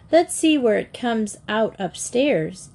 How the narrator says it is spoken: Katie cried

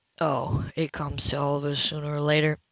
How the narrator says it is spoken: Cy replied lazily and personally

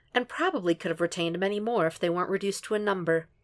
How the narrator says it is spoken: Bella says sweetly

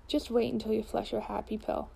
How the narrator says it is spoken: says Agnes

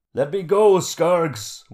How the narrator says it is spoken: shouted

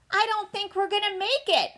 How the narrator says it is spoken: I yelled ahead

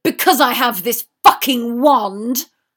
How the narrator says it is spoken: Draco snapped

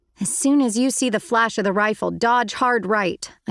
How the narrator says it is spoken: I yelled

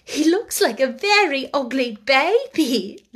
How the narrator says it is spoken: laughed Sarah

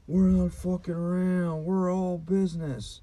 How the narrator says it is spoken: a drunk and shroomin' Joe was yelling to people

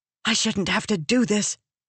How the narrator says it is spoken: Venli hissed at him

